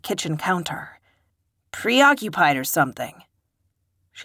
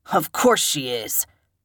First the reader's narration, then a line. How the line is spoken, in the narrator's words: Joe snarled